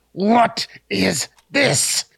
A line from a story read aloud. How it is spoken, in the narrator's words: he yelled too loudly for the library